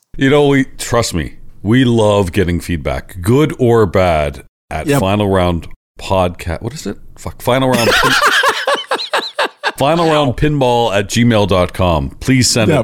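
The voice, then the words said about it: Canadian accent. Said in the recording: “your annoying Canadian accent”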